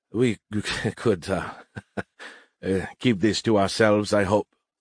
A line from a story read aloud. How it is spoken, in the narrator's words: the Ruhar asked, laughing nervously